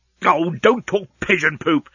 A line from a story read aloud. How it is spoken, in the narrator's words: snapped Leovinus